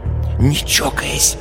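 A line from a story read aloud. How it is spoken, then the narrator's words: Warning whisper. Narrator (Russian): упреждая, шепнула Люся Кашину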